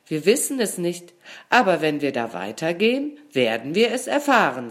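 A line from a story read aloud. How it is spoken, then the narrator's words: Plain. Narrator (German): sagte ihr Freund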